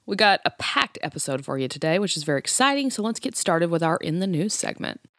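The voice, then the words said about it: Voice sounding a little off. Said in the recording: “forgive my voice today. I know it sounds a little off, but it is allergy season”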